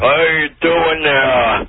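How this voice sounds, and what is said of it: Character voice of Satan. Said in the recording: “who is that voice? ... This is Satan.”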